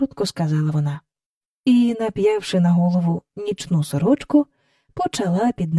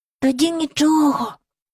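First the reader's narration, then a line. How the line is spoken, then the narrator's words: Whispered. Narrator (Ukrainian): прошепотів Майкл до Джейн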